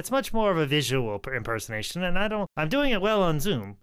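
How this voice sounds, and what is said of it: Usual voice. Nothing is said of it.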